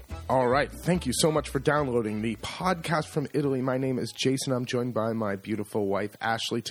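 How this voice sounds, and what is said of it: Polished radio announcer voice. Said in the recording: “You kind of have your radio voice on.”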